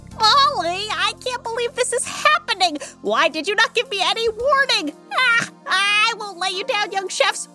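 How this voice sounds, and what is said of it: Yelling, excited loud voice. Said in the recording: “Why am I yelling? I don't know. Why are you yelling?”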